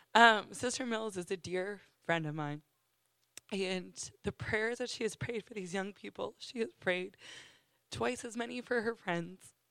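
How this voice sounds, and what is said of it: Hoarse, fading voice. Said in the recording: “I'm losing my voice because I tried to just worship through the whole worship service”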